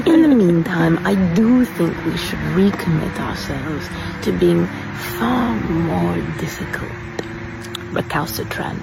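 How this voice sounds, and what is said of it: Put-on accent. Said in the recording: “I'm so impressed by the accent”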